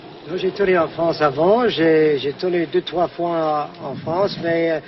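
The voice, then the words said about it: Heavy foreign accent in French. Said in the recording (French): “Mon accent, et c'est terrible, mais c'est amusant.”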